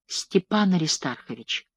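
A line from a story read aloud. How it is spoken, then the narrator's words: Whisper. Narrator (Russian): шепотом произнесла она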